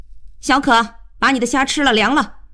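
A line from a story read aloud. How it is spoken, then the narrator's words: Loud call. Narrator (Chinese): 她高声叫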